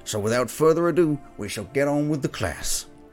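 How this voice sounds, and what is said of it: Put-on cowboy accent. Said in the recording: “a very interesting accent ... Grung was translated into a cowboy accent”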